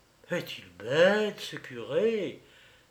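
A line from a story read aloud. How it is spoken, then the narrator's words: Murmured. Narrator (French): murmura Grenzel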